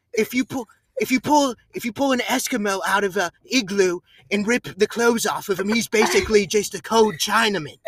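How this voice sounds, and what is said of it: Put-on British accent. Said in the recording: “you have to do it British ... The accent made it so much better.”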